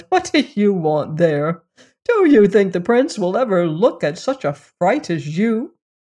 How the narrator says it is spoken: the others laughed at her and said

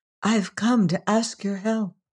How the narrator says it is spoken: a soft, beloved voice whispered

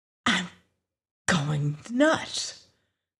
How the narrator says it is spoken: Lois whispered

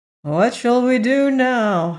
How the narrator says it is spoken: asked the Scarecrow with a sigh, for such a crime had cast a gloom all over the company

